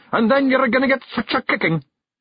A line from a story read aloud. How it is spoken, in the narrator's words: yelled Rob Anybody